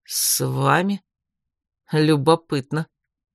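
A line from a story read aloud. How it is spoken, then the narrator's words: Through gritted teeth. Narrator (Russian): сквозь зубы процедил Фрайберг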